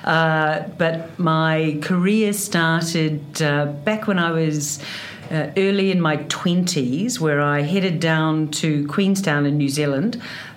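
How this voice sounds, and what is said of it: Broad New Zealand accent. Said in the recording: “A New Zealander, clearly from my wonderful Kiwi accent that is very proud and broad of”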